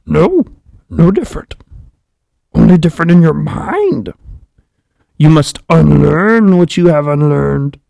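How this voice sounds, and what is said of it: Yoda character voice. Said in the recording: “I'm going to try to do my Yoda impersonation”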